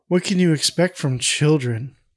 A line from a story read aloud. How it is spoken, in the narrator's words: Marcia quietly says